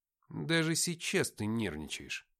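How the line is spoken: Mutter. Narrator (Russian): пробормотал я

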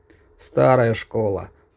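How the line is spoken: Inward sigh. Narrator (Russian): вздохнул про себя Корсаков

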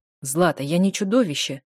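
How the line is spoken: Irritated through gritted teeth. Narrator (Russian): раздраженно цедит

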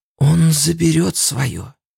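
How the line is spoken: Whisper. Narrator (Russian): прошептала

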